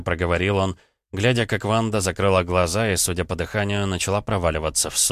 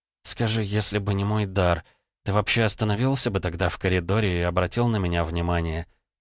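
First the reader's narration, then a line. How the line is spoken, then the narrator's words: Whispered. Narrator (Russian): прошептала она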